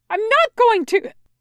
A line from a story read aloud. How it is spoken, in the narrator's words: Wei Wuxian calls out to him, his voice angry and scared